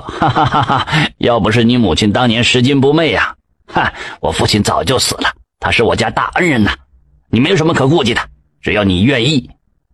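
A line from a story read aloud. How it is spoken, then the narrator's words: Hearty laughter. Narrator (Chinese): 张兴哈哈一笑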